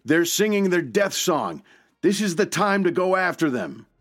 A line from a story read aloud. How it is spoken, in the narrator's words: White recognized it immediately and called out